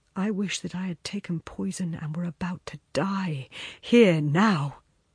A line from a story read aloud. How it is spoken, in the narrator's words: he said, in a low, troubled voice